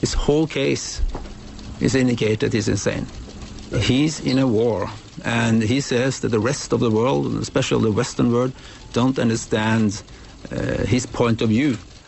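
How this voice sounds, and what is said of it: Striking foreign accent. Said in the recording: “this is a fantastic accent.”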